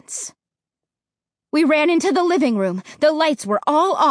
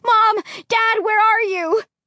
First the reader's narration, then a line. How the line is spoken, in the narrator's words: I pushed open the door and both Josh and I started to scream